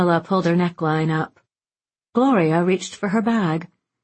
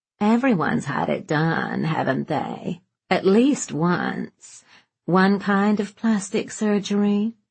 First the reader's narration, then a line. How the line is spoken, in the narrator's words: Truman drawled